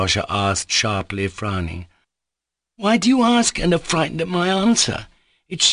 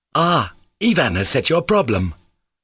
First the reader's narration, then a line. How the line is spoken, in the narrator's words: cried Rakitin with undisguised malice